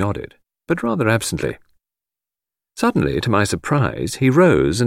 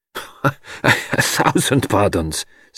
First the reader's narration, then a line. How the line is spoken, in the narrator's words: stammered Poirot